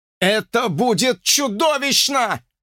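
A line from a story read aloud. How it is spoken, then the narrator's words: Shouting. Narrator (Russian): закричал Джордж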